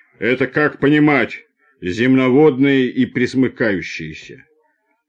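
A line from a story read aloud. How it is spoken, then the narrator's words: Deep bass, burly worker. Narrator (Russian): плечистый рабочий пробасил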